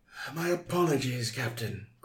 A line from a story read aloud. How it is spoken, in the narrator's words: groaned Moriarty